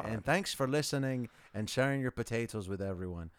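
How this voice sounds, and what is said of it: Put-on accent, likely Irish. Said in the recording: “We could have made the accent last a little bit longer.”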